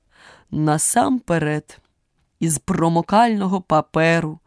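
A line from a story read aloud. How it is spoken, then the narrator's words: Knight's anguished groan. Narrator (Ukrainian): Аж застогнав білий лицар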